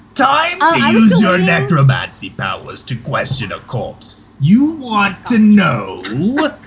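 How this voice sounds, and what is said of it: Menacing evil villain voice. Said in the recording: “Use your evil voice. ... He's using the evil voice.”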